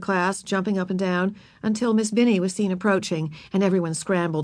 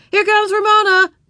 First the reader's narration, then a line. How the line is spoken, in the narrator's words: the other boys and girls shouted